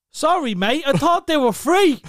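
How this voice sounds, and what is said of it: Put-on English accent. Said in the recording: “The accent and all. ... I told him I was from England”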